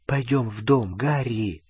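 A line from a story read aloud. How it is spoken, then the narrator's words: Whisper. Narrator (Russian): прошептала Гермиона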